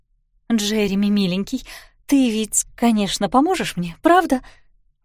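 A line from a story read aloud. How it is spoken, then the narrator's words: Pleading. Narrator (Russian): взмолилась она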